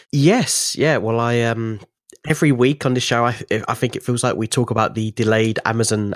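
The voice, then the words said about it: Slightly congested voice. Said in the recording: “I've got a little bit of a cold”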